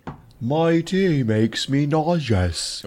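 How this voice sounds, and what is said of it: Poor attempt at British accent. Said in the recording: “You could never be British ... I've never been good at faking the accent either.”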